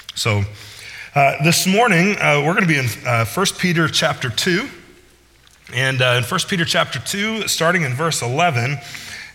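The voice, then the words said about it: Weak, strained voice from illness. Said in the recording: “my voice is still struggling a little bit this morning... just got a little cough and my voice is just not coming back”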